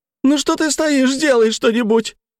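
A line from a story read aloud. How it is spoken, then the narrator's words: Woman shrieking. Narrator (Russian): Завизжала женщина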